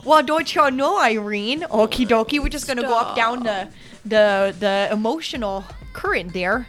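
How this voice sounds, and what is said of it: Put-on Midwestern American accent. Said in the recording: “That's my Midwest accent.”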